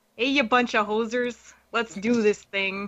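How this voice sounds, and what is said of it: Put-on Canadian accent. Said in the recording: “I could do my best Canadian accent for you all.”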